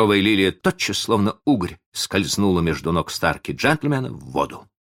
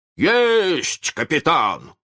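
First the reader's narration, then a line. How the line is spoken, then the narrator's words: Yelling. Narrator (Russian): заорал Неряха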